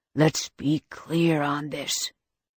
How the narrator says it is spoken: he growled

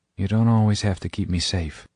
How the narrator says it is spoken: she says, her voice suddenly soft

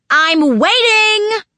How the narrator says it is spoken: Naomi screamed from outside

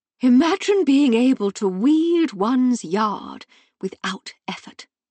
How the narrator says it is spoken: Miss Glastonbury said dreamily

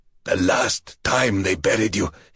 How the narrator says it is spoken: he gasped

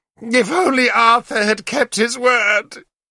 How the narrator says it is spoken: she wailed to Guinevere

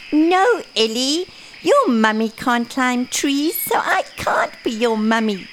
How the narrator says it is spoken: giggled Basil

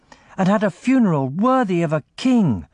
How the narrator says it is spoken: cried Thorgil

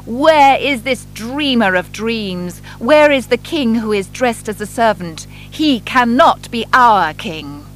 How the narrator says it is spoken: The government officers shouting

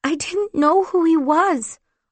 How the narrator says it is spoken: I whimpered

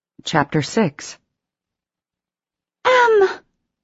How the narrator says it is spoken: Casey cried

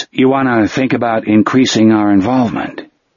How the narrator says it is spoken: Phil Sawyer said in a noncommittal voice

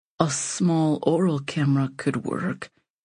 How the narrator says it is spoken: he murmurs timidly

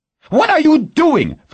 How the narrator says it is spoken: Ferraro screeched from the doorway

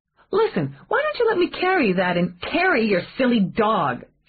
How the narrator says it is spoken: she snapped

